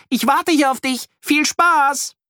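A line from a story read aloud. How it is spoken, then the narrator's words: Shouted. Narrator (German): ruft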